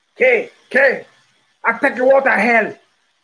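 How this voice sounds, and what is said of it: Imitates another person's voice. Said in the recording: “my Al Pacino Scarface imitation.”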